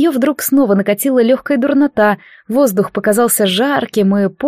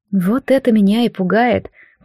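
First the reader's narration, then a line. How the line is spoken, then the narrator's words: Muttered. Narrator (Russian): пробормотала Джад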